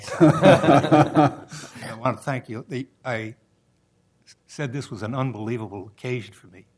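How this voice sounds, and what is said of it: Speaks with a noticeable accent. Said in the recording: “the accent is there. It won't go away.”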